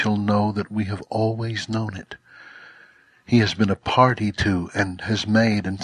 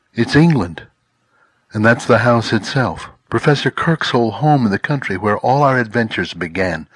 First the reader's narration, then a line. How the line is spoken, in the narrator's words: exclaimed Peter